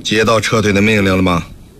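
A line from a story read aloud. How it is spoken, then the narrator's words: Calm flat tone. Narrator (Chinese): 萧山令没有抬头，淡淡地说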